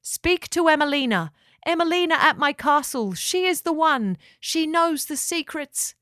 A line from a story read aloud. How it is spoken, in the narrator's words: He cried out